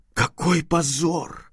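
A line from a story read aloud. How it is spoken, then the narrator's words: Embarrassed exclamation. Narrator (Russian): воскликнула она сильно краснея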